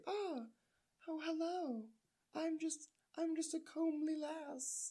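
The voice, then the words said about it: Put-on girlish voice from throat. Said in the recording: “my girl voice, which okay. every girl gets ... It's just in the back of the throat ... That's my girl voice”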